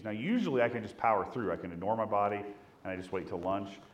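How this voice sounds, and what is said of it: Voice sounds sick, under the weather. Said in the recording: “I've kind of been under the weather a little bit, as you can tell in my voice.”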